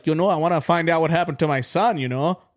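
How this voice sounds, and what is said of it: Put-on Minnesotan accent. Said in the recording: “that kind of fucking accent. And, like, you know, they're Minnesotans.”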